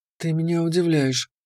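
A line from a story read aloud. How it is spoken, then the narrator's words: Quiet. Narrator (Russian): тихо сказала она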